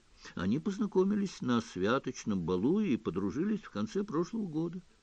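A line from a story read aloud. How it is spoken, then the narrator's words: Calm. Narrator (Russian): спокойно сообщила Гермиона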